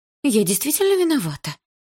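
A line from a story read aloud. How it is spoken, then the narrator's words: Timid babbling. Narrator (Russian): пролепетала Лика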